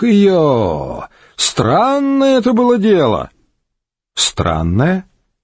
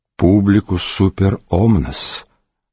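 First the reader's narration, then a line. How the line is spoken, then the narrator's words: Quiet. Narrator (Russian): сказал тихо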